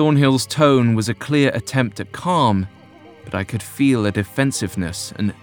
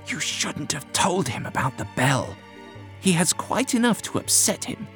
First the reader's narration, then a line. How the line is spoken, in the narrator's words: Whittam hissed to the doctor